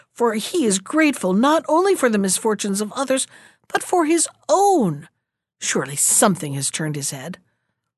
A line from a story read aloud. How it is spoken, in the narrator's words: he cried